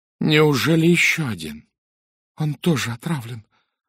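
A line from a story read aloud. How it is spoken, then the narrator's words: Trembling voice. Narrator (Russian): произнесла дрожащим голосом Анжела Сатклифф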